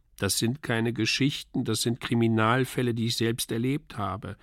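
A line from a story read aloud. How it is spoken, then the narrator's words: Plain. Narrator (German): sagte ich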